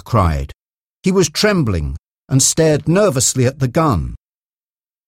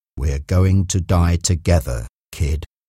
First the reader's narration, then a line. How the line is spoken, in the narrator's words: said quietly